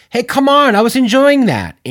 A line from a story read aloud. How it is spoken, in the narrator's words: Andy yelled